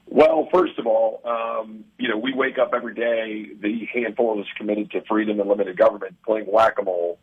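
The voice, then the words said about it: Slightly weakened voice. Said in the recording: “my voice is a little cedar weakened”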